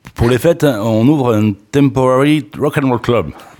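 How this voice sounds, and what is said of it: English phrase in Chalosse French accent. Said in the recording (French): “Avec mon accent anglo-chalossé.”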